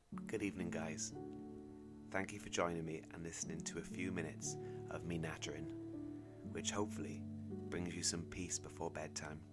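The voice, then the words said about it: Soft lyrical Welsh accent. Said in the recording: “my Welsh twang, so I'm hoping my soft and lyrical accent”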